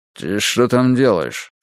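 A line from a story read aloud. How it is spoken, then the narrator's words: Plain. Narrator (Russian): спросил он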